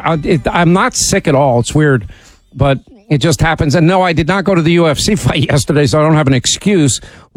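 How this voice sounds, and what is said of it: Slightly sore, hoarse voice. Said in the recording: “my voice is a little sore”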